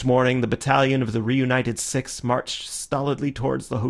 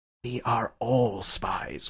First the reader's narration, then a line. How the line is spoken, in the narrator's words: whispered Syme